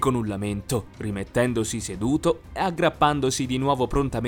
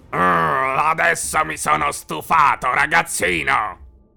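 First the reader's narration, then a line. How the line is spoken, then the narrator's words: Huge beast growling. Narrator (Italian): ringhiò l'enorme bestia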